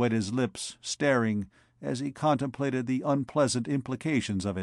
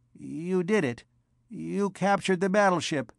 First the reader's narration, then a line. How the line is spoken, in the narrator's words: Narth said, his tone like one dazed